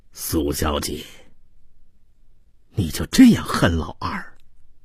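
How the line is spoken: Sighing. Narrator (Chinese): 马水清叹道

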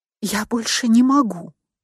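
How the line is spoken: Barely audible. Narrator (Russian): еле слышно проговорила я

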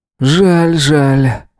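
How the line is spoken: Snorting hum. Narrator (Russian): хмыкнул он

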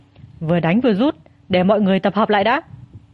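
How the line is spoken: Shouting. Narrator (Vietnamese): Mông Phong hét

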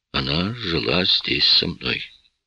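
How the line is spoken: Quiet. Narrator (Russian): тихо проговорил я

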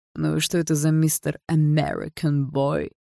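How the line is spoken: Relaxed confident question. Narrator (Russian): Расслабленным голосом спросил Барс, чувствуя себя хозяином положения

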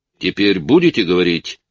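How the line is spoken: Shouted. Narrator (Russian): выкрикнул Янсен

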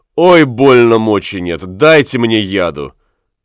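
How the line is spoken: Pained scream. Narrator (Russian): Котлина крикнула

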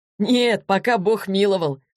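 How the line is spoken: Laughing. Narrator (Russian): засмеялся Егор

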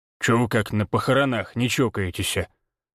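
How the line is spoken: Grumbling. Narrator (Russian): пробурчал Владимир

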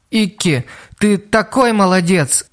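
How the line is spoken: Sobbing speech. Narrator (Russian): всхлипывая, проговорила она

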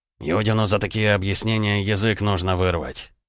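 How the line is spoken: Grumble. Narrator (Russian): пробурчал Репнин

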